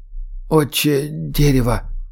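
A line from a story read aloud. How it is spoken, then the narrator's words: Whisper. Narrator (Russian): прошептал он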